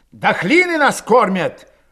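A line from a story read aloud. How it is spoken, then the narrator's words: Indignant shout. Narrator (Russian): возмущенно крикнул Кошевой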